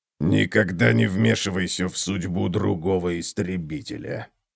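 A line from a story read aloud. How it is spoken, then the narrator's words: Muttered, dwarf. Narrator (Russian): всего лишь пробормотал гном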